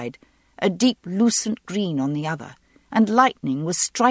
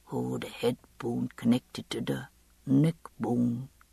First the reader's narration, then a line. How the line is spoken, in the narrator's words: Joe Abernathy's voice sang softly in memory